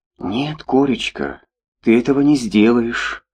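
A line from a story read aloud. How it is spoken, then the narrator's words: Soft but firm. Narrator (Russian): мягко, но решительно говорила Устинья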